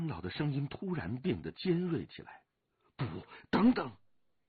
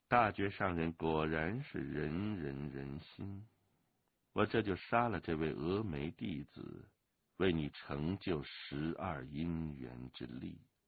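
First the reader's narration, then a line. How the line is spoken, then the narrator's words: Cool, detached voice. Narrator (Chinese): 那个淡淡的声音又说道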